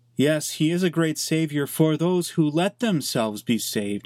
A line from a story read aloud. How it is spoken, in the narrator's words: said